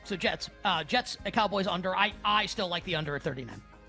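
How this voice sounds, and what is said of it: Usual voice. Nothing is said of it.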